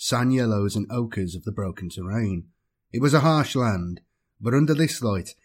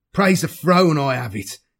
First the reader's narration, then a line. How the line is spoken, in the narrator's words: shouted, his proud face a picture of relief